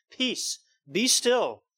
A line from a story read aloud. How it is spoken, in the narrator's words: He has authority to say